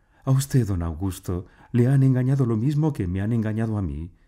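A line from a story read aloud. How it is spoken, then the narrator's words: Exclaimed. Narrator (Spanish): ella exclamó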